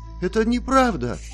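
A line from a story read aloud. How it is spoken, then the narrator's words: Angry exclamation. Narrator (Russian): воскликнула в гневе Розалия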